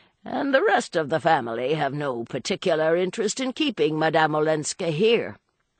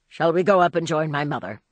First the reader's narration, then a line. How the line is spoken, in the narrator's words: he suggested curtly